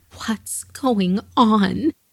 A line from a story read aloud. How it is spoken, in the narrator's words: she begged to know